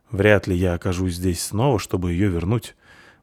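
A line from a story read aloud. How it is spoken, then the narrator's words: Gloomy. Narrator (Russian): мрачно сказала Талена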